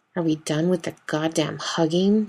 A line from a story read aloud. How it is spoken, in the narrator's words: Dean grumbles into his coffee